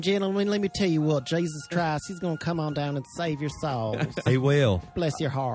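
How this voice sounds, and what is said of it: Put-on Southern preacher accent. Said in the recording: “deliver that in a Southern accent”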